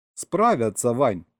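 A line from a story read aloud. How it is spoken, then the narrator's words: Amused grunt. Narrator (Russian): хмыкнул Серега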